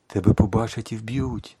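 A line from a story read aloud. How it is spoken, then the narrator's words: Frantic whisper. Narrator (Ukrainian): шепотіла я, божеволюючи від думки, що це може статися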